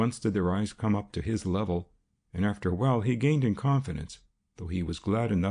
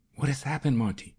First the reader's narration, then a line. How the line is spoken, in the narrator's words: she whispered